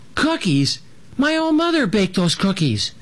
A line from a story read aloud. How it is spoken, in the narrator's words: Little Jim squeaked